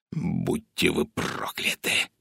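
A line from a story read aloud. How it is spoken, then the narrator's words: Hissing. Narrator (Russian): прошипел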